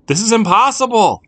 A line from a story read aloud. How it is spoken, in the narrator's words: shouted